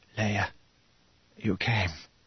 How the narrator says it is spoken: Mon Mothma whispered

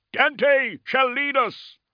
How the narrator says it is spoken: cried someone

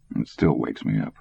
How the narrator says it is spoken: Dick mumbled

